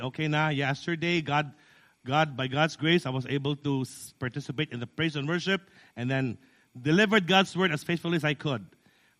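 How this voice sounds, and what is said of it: Hoarse, strained sore-throat voice. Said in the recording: “this is not my normal voice. This is my bedroom voice caused by sore throat”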